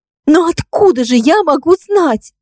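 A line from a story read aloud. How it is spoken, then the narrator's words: Breathless cry. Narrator (Russian): выкрикнула Марго, задыхаясь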